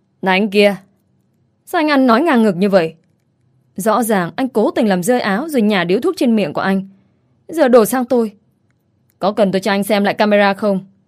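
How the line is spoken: Mocking laughter. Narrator (Vietnamese): cười mỉa mai tôi

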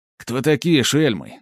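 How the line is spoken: Menacing bark. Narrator (Russian): грозно рявкает Владимир

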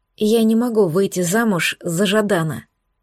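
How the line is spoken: Very quiet speech. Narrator (Russian): сказала очень тихо

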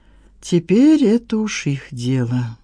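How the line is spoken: Sigh. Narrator (Russian): вздохнул он

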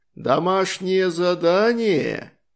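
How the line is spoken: Surprised drawl. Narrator (Russian): удивленно протянул голос за фонариком

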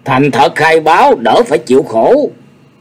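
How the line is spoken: Glaring shout. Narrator (Vietnamese): Y trừng mắt nhìn Nhạc Chi Dương rồi hét lên

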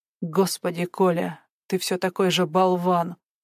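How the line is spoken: Barely audible. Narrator (Russian): произнесла Кира едва слышно

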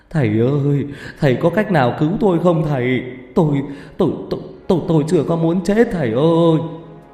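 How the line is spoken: Tearful pleading. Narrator (Vietnamese): Ông ta mếu máo

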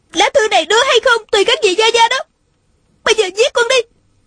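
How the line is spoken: Shouting. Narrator (Vietnamese): Nàng la lên

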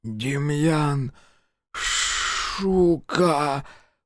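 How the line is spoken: Toothless wheeze. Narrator (Russian): просипел он беззубой пастью

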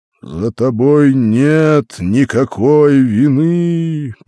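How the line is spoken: Thundering voice. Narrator (Russian): прогремел голос

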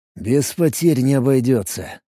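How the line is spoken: Sighed. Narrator (Russian): вздохнул я

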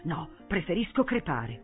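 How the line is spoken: Muttered. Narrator (Italian): borbottò

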